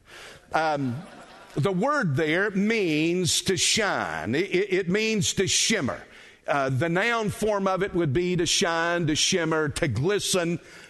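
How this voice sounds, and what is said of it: South Carolina accent. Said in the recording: “don't laugh at my Hebrew, that's got a South Carolina accent to it”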